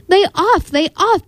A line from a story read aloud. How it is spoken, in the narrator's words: begged McGoon